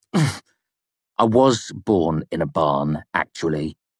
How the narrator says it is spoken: I said grimly

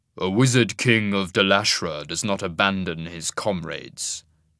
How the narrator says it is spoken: he said grimly

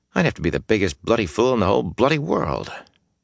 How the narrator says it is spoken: muttering

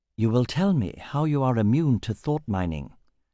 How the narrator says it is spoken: said calmly

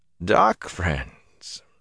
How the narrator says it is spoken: Niall's chuckle held no amusement

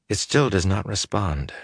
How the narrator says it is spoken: she murmured, half to herself

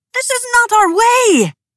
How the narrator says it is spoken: cried Chernoff

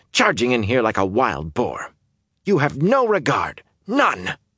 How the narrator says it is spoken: practically spat

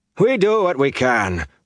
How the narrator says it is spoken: Flan barked

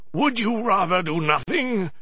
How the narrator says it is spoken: yelled

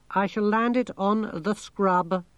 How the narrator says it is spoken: said the thing

